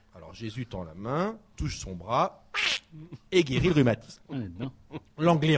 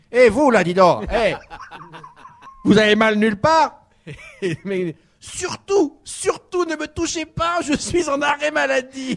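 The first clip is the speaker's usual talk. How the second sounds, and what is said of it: Put-on Central African accent. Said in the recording (French): “faut que je fasse l'accent de Jésus ... Jésus, il avait l'accent d'Israël, mais d'Afrique centrale”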